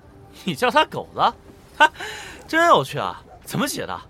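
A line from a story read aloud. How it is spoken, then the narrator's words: Giggling foolishly. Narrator (Chinese): 他为自己的妙语痴痴发笑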